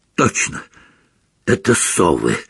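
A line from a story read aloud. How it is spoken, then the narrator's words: Hoarse. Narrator (Russian): хрипло сказал Рон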